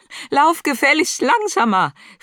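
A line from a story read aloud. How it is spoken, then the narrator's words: Annoyed call after. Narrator (German): rief Marie ihr hinterher, nun ernstlich verstimmt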